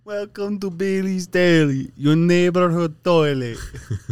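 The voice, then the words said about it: Put-on accent imitating a woman. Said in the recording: “Dude, in her accent, couldn't be funnier.”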